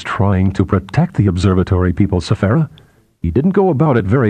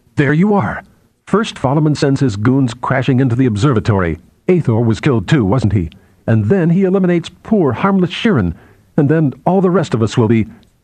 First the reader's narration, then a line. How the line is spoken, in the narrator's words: she stared at him more angrily than before and said